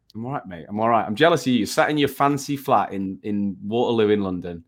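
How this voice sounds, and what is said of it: Rough, unwell-sounding voice. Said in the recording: “dying like a chimney sweep. I sound terrible.”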